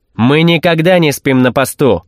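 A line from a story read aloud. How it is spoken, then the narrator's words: Barked. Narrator (Russian): рявкнул один из них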